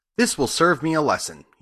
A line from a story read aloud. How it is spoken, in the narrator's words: he said